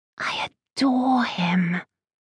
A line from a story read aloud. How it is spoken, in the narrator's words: she whispered to Charlotte